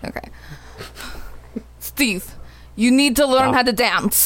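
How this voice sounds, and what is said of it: Rusty put-on Russian accent. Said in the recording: “let's hear a rusty Russian accent ... What do you want me to say in a Russian accent then?”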